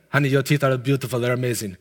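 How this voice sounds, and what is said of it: Imitation of the dentist's accent. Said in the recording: “That's his accent.”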